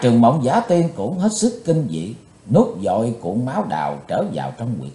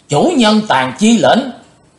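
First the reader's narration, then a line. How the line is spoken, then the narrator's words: Loud crowd shout in unison. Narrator (Vietnamese): Đến gần 200 cao thủ đồng thanh quát lớn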